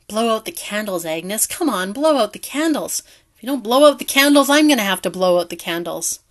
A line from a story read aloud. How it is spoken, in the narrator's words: Harry gruffly mumbled